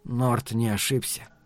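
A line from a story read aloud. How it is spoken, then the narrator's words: Quiet. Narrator (Russian): негромко сообщил Каттерсон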